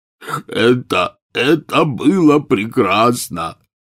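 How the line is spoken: Wailing, sobbing hard. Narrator (Russian): взвыл Хагрид и, зарыдав пуще прежнего

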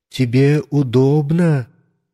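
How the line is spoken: Plain. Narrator (Russian): спросила санитарка

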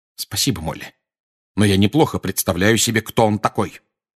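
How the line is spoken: Cold reply. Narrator (Russian): холодно ответил Сириус

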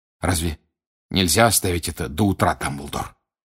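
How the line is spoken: Hoarse question. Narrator (Russian): хрипло спросил Сириус

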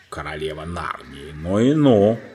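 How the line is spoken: Grumbling. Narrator (Russian): проворчал мистер Бобр

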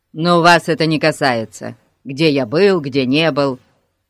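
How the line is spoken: Snapping back. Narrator (Russian): огрызнулся мистер Пикс

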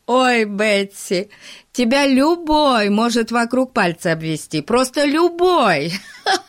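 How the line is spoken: Laughing almost to tears. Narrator (Russian): Пип смеялся чуть не до слез

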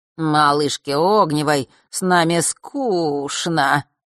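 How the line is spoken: Gleeful mocking drawl. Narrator (Russian): протянул Марк, обрадовавшийся возможности поиздеваться над ней

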